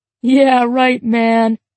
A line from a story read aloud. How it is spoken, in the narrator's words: James cackled